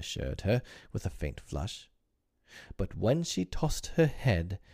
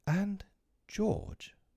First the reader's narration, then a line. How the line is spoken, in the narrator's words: she said timidly